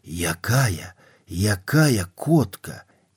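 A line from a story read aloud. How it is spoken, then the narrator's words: Fast urgent whisper. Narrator (Belarusian): хуткім гарачым шэптам, нібы пароль, прамовіў мне ў вуха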